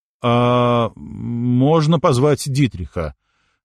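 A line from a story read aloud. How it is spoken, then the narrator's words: Confused mumble. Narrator (Russian): растерянно промямлил Алекс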